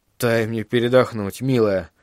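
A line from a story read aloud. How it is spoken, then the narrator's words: Mumbling. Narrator (Russian): пробормотал он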